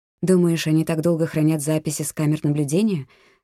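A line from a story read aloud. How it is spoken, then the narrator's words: Plain. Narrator (Russian): спросила Рейс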